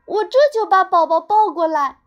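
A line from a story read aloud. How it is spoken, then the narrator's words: Calling out. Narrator (Chinese): 妈妈在叫他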